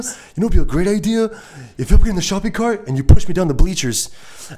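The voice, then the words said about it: Impression of a friend. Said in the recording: “great Joe impression”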